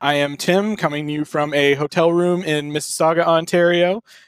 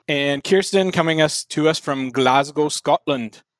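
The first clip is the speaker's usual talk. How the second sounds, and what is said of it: Poor put-on Scottish accent. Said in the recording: “attempt to do a Scottish accent ... it'll be absolute hot fucking garbage”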